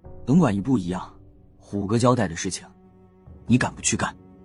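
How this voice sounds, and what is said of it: Low, hushed voice. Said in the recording (Chinese): “领头的那人低声说道”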